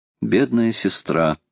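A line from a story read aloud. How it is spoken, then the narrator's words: Sad. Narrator (Russian): грустно сказал Роберт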